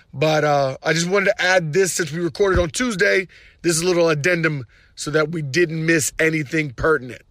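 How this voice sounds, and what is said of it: Hoarse, nearly lost voice. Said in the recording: “My voice is gone, as you can tell.”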